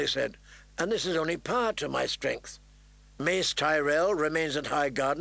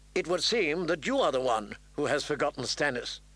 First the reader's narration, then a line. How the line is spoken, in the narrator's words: Catelyn said, more sharply than she intended